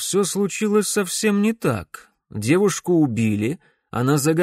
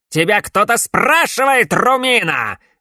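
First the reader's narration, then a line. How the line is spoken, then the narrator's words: Barked. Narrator (Russian): рявкнул Эмбер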